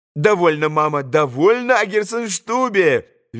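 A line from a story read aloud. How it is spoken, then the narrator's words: Cheerful laughter. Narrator (Russian): весело смеялась Лиза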